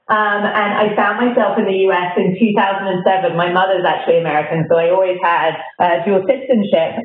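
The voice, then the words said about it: British accent. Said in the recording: “you may notice from my accent that I grew up in Britain”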